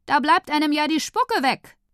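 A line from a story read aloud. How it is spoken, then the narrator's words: Calling out. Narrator (German): Tante Leonie ruft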